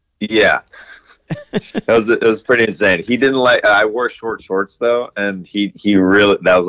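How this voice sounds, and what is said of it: Usual voice. Nothing is said of it.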